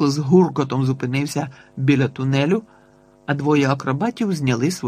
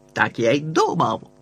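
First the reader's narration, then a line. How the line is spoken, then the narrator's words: Barked. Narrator (Ukrainian): гаркнув сержант Смах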